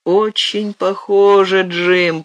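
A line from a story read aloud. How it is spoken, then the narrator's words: Moaning. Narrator (Russian): простонал он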